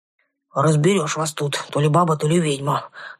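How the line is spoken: Booming bass, forest spirit. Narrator (Russian): раскатистым басом прогудел леший

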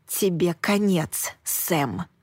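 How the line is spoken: Hissed under breath. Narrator (Russian): прошипела я себе под нос

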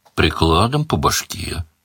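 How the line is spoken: Gloomy, muffled by finger. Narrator (Russian): мрачно предложил Бонни, посасывая прокушенный палец

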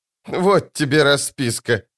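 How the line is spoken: Snorting. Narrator (Russian): фыркнула она

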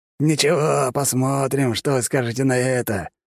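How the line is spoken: Menacing hiss. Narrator (Russian): прошипел маг, злобный оскал

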